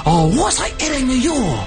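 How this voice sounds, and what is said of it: Mock Chinese accent. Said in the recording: “In a racist Chinese accent.”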